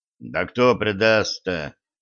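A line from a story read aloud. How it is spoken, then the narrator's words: Sullen grumble, older man. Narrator (Russian): угрюмо буркнул старший Латышев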